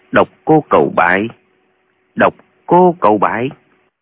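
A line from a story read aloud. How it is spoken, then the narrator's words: Muttering. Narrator (Vietnamese): Lệnh Hồ Xung lẩm bẩm nói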